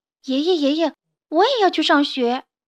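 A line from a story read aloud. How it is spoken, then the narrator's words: Excited childish shouting. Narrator (Chinese): 于是就嚷嚷了起来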